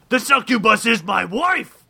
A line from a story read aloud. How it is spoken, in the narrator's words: shouted the demon